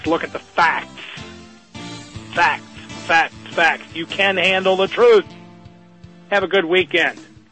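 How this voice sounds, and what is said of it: Hoarse, ranting voice. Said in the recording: “my hoarse, ranting voice”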